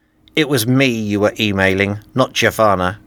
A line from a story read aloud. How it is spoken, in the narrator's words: he said